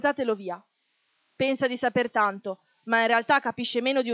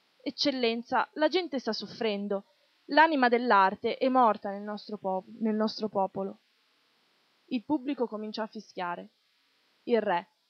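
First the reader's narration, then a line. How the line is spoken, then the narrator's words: Pained voice. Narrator (Italian): L'uomo con voce sofferente disse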